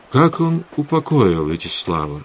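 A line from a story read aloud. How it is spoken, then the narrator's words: Plain. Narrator (Russian): спросил Завулон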